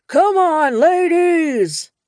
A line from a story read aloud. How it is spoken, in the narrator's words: the burly biker cupped his hands to his mouth and shouted